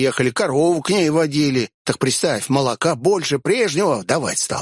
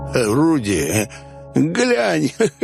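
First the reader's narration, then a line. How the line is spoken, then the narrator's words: Silly giggle. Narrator (Russian): глупо хихикнул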